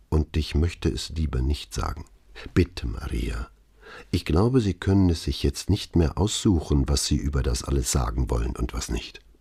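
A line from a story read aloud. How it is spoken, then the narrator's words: Answered in low voice. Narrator (German): antwortete mit leiser Stimme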